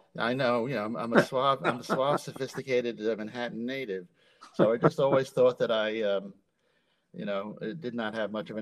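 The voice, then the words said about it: New York accent. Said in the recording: “especially your authentic New York accent”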